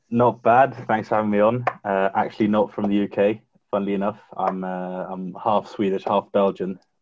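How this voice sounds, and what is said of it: English accent. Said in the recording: “with an English accent ... you've got that accent like my co-host”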